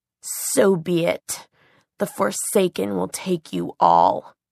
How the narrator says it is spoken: Between his teeth, he hissed

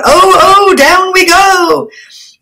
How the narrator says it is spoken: the infuriated shrieks of Snooty Batu, who seemed to take the weather conditions as a personal insult

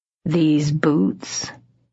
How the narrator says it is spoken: he said in a low, purring voice

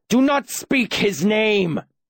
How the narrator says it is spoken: the justice screamed, his face a livid red

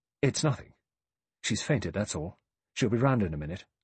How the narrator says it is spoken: He said quickly

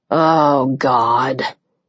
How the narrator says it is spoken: he groaned

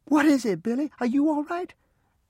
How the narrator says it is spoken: In a frightened voice, she shouted back

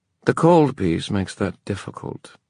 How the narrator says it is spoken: the queen said dryly

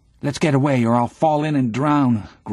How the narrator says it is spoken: groans Albert

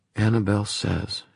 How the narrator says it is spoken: she whispered

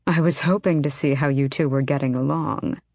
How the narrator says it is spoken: her uncle purred

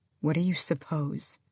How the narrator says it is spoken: Adian breathed

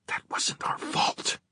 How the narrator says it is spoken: Livy whispered

